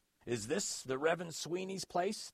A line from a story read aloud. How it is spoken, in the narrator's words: the man yelled